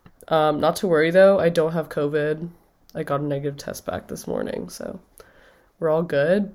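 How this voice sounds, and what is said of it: Nasal, congested, sniffly voice. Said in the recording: “I am sick. In fact, if you couldn't tell from my nasally blocked voice ... sniffly”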